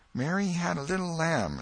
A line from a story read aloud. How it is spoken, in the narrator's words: A little shame-faced girl lisped